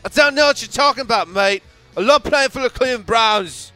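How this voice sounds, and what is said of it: Bad put-on British accent. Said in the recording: “that is probably the worst British accent I've ever heard.”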